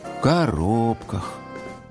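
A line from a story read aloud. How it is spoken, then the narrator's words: Sighed. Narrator (Russian): Дим Димыч вздохнул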